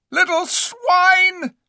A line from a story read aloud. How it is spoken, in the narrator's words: shrieked Eustace, dancing in his rage